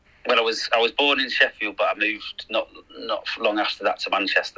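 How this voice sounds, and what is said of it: Mixed northern English accent. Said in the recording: “my accent is a little bit varied at the moment”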